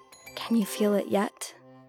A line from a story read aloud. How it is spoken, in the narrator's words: whisper